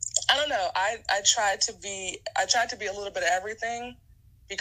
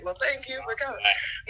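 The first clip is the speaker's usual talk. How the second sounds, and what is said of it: Host-style wrapping-up voice. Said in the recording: “in my wrapping up voice.”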